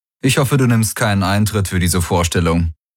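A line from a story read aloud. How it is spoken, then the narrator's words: Tired, grinning. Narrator (German): sagte müde grinsend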